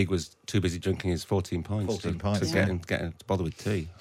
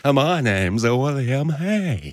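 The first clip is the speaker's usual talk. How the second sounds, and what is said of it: Imitates another person's voice. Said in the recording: “I can do a good William Hague. ... It's not bad, is it? It's quite a good impression of someone.”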